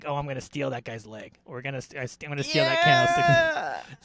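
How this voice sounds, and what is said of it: Scratchy Rocket Raccoon-like character voice. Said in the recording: “he's basically Rocket Raccoon. So I do a very like scratchy”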